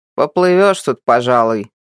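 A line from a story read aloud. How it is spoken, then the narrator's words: Grumbling. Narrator (Russian): проворчал Матвей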